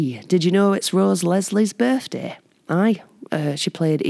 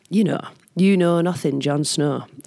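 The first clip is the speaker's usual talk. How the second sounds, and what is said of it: Put-on Northern English accent. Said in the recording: “I'm just trying to flex my Northern English accent.”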